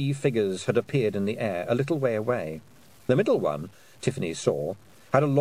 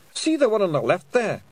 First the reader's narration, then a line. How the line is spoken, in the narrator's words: whimpered a Pixie